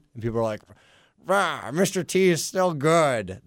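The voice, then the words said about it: Imitates another person's voice, poorly. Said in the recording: “That's my Dolby impersonation... It's terrible... That's a terrible impersonation... Dolby's got a much deeper voice”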